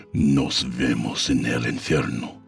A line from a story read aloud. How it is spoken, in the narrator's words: he growled